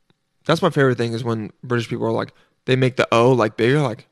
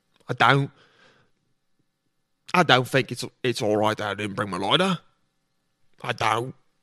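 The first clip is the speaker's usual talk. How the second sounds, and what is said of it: Attempted Cockney accent. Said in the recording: “Cockney accents. Sometimes I'm good at accents, and sometimes I suck at them.”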